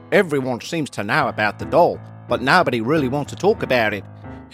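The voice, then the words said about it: Put-on Australian accent. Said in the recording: “Tony's actually from England, but if any of Australian listeners are going to be offended by my accent now”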